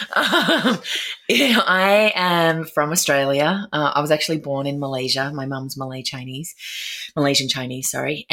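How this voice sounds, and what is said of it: Australian accent. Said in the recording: “Your accent is not from Tennessee.”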